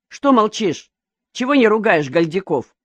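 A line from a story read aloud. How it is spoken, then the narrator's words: Plain. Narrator (Russian): спросил Никифор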